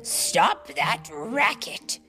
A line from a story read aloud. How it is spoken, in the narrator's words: he replied crossly